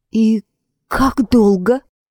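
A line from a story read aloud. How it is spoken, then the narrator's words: Strained, forced out. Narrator (Russian): Она с трудом выдавила из себя слова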